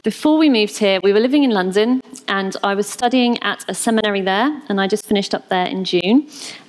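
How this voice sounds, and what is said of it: British accent. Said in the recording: “as you might notice from my accent, I'm not actually from New York. I moved here from the UK”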